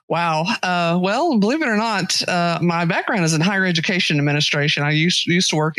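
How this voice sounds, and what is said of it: Texas accent. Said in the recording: “You're in Texas, yeah? ... If my accent doesn't give that away ... slightly does. It does betray you a little bit.”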